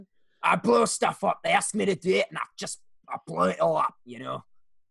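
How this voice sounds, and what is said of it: Put-on character voice. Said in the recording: “You're doing a voice.”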